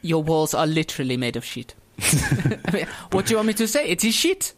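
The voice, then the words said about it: Put-on French accent. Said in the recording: “Mate, you're doing a French accent. What's going on?”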